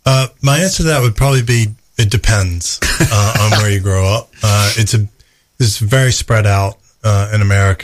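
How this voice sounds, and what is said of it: Lovely English accent. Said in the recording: “you've got that really lovely English accent”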